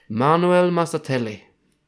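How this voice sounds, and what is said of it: Fake Italian accent. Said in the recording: “I can't do it without the fake Italian accent.”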